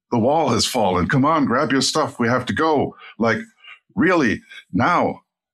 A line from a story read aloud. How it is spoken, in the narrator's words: yelled at him